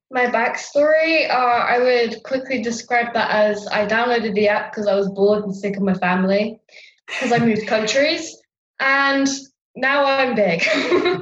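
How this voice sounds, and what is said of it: English accent. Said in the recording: “from England, given the accent”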